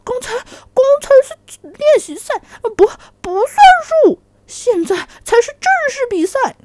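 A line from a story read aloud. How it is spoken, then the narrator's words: Anxious, hurried cry. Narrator (Chinese): 大象急了，赶忙叫道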